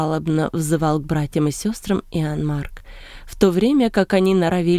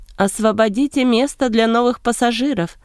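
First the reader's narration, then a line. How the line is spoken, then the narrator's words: Shouted. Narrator (Russian): прокричал капитан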